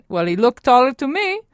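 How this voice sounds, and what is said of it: Imitated Italian accent. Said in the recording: “she said in her classic Italian accent”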